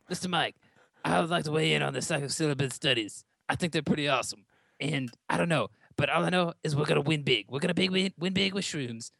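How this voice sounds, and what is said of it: Imitates another person's voice. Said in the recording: “I might have to get Trump on the phone and see what he has to say about it ... you sound like”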